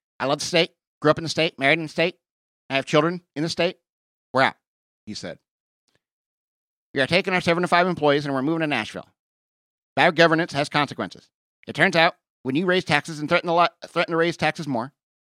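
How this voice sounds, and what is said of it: Imitates another person's voice. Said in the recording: “doing this Ben Shapiro voice. It's a little annoying”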